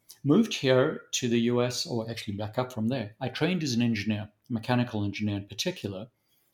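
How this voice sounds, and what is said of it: Mixed, mainly Southern African accent. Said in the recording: “the accent is a little confused. Nonetheless, primarily a Southern African accent is what everyone is hearing”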